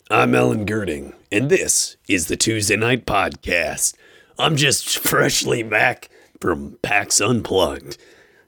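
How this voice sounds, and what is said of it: Sick, nasal congested voice. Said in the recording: “man, am I sick. My voice is doing this thing that I'm not sure it's ever done before. A whole lot of coughing, a whole lot of nasal congestion ... I have a totally new voice ... It hurts to talk”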